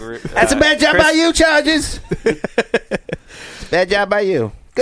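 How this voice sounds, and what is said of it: Impression of Mike Mad Dog. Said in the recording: “weekly impersonation of Mike Mad Dog”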